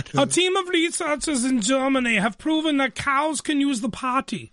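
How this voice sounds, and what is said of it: Put-on German accent. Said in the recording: “I got to do this in the German accent.”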